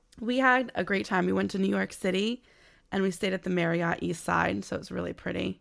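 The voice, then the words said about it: Raspy, partly lost voice. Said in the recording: “I sound a little raspy today ... I still lost my voice a little bit”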